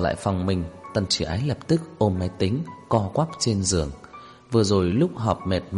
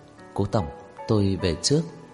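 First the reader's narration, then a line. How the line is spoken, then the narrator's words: Quiet voice. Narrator (Vietnamese): Cô nhỏ giọng nói với Cố Dư Sinh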